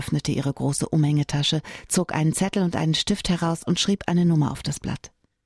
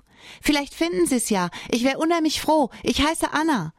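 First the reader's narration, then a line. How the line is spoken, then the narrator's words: Calling out. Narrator (German): rief sie ihm zu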